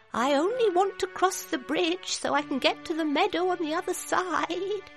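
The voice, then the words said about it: Small, timid character voice. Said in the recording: “in a little voice.”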